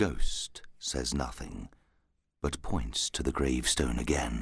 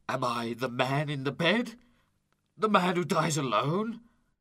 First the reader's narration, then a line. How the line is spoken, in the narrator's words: asks in a terrified voice